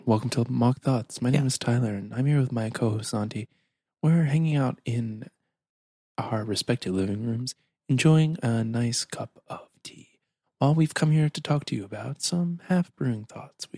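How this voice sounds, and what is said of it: Calm, polished public-radio announcer voice. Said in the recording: “It's my NPR voice.”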